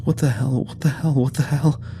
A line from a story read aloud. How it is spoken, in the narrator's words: was wheezing a new mantra somewhere behind us